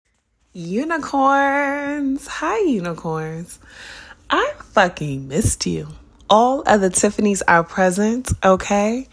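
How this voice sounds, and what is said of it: Slightly raspy, recovering voice. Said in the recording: “I'm a little raspy. My voice is recovering. I was sick as fuck and I lost my voice.”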